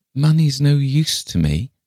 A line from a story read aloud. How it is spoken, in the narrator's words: said Miss Lefane mournfully